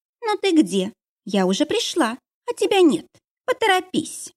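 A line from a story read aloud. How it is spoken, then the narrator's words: Capricious little voice. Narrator (Russian): капризным голоском произнесла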